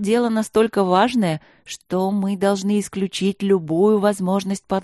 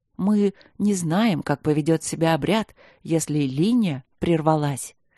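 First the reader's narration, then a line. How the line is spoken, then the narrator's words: Stubborn objection. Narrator (Russian): возразил упрямый оппозиционер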